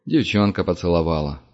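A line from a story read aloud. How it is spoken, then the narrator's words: Sigh. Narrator (Russian): вздохнул Парт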